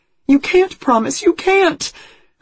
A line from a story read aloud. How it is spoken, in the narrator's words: Her voice rises shrilly